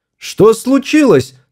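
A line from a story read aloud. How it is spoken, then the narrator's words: Shout. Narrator (Russian): снова крикнула она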